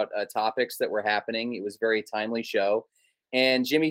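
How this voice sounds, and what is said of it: Usual voice. Nothing is said of it.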